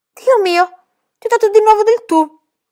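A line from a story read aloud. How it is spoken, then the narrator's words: Frightened shout. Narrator (Italian): gridò spaventata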